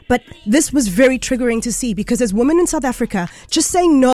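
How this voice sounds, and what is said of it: Teary, emotional voice. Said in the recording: “I'm getting a little bit teary,”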